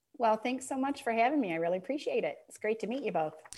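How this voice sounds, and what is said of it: Mild Michigan accent. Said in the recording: “I am noticing your little Michigan accent there”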